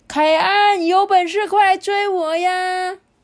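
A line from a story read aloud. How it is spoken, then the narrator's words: Shouting. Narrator (Chinese): 大喊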